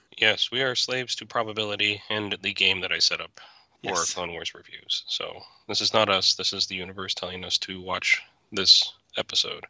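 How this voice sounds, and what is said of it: Unusually deep baritone voice. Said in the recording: “apologize for my voice. I am getting over a cold. ... So I'm going to sound like a deep baritone.”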